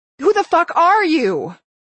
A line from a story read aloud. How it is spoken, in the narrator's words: Without meaning to, I was screaming